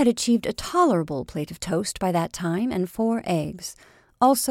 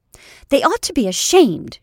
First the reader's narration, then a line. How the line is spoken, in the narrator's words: she cried angrily